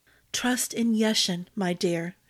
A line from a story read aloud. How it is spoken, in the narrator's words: she whispered